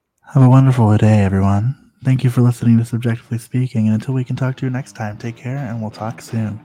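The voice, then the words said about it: Put-on sultry voice. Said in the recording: “our sultry voices ... Sultry, you say? ... my best impression”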